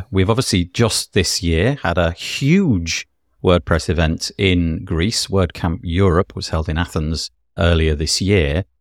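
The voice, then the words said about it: British accent. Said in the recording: “Just judging by my accent, you can probably tell that I'm from the UK”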